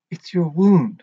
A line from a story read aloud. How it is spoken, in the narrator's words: she said